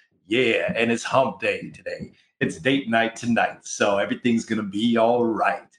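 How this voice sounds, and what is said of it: Deep, hoarse sick voice. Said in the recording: “I've been sick for the last week... You can probably hear it in my voice. I'm rocking the Barry White baritone voice.”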